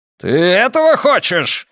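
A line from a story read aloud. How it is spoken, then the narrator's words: Roaring. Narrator (Russian): взревел полковник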